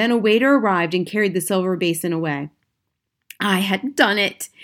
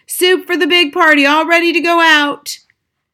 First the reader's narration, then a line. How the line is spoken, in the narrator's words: shouted